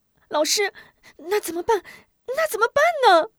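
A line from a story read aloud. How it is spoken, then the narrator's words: Anxious, near tears. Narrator (Chinese): 吴中一听，急得要哭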